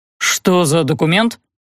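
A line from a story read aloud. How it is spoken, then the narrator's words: Irritated simultaneous question. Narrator (Russian): Геля и Эльдар спросили одновременно, и оба раздраженно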